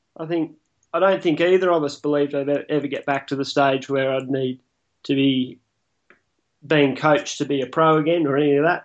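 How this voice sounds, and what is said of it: Emotional, choked-up voice. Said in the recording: “sorry, I'm a bit emotional about it”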